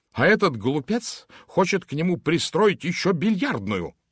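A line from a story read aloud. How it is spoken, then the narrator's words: Angry snap. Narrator (Russian): зло бросил Майкл Уэйман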